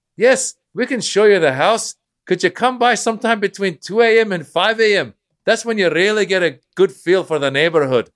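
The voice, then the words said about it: Put-on Irish accent. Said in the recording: “thank you for doing an Irish accent. Thank you for the accent.”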